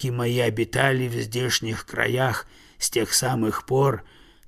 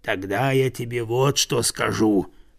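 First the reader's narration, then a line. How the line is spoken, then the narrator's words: Bear's growl. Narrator (Russian): прорычал медведь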